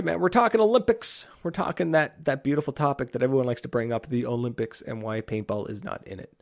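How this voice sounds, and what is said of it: Fading, worn-out voice. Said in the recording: “While my voice slowly fades away ... Let my voice recover ... Until my voice cracks again and it goes higher.”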